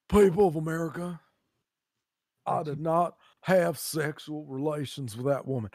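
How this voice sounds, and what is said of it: Imitates another person's voice. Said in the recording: “that fucking impression”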